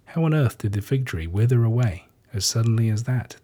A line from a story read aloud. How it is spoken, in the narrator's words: they asked